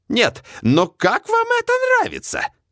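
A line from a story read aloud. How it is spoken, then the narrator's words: Indignant appeal. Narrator (Russian): Возмущенно взывает она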